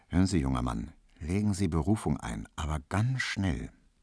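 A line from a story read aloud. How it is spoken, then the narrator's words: Very quiet, secretive. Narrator (German): sagte im Vorbeigehen so ganz leise zu ihm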